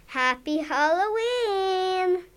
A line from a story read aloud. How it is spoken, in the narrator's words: yelled